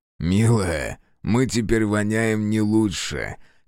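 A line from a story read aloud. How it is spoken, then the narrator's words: Hoarse laugh. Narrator (Russian): хрипло засмеялся Фергус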